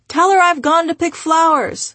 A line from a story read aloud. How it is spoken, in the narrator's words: hear him yell in the background